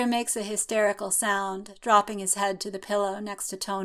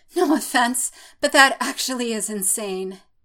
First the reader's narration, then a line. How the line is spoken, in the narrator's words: pants